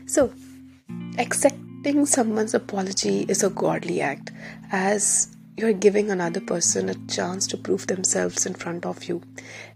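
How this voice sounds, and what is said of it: Slightly rough, unwell-sounding voice. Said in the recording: “Pardon my voice, I have a little bit of throat infection.”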